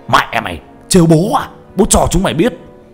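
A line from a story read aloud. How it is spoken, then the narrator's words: Furious shout over gunfire. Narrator (Vietnamese): Thằng lính điên tiết vừa bóp cò vừa quát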